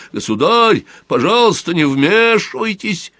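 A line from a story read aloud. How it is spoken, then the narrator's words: Two voices yelling. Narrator (Russian): Бургомистр и прокурор на два голоса заорали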